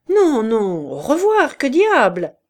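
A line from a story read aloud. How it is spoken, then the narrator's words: Cheerful exclamation. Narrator (French): s'écria gaiement le fabricant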